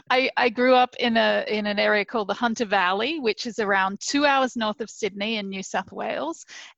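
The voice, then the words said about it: Australian accent. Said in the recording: “you have an accent ... hey, what part of England are you from? ... I'm actually from Australia.”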